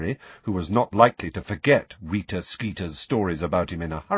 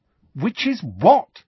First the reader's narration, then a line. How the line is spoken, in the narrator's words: said Harry impatiently